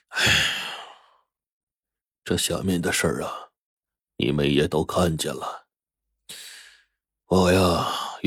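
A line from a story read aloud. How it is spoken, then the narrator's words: Old man, slow sigh. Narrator (Chinese): 老爷子缓缓叹了口气，说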